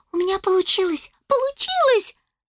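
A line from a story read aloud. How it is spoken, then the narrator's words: Joyful child exclaiming. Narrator (Russian): радостно воскликнула малышка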